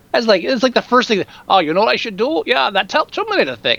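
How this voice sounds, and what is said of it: Bad imitation of another person's accent. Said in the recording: “That's a horrible accent. I should never do a Schwarzenegger accent. ... That was horrible. I had to stop myself. That's how bad that was.”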